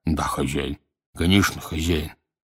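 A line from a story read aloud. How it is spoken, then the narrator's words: Dull mumble. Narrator (Russian): глухо бормоча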